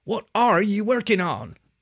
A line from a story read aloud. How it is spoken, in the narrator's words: he snapped at Lieutenant Donari, losing his patience